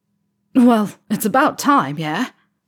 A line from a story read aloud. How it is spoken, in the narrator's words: Ron barks, as if yelling toward the balcony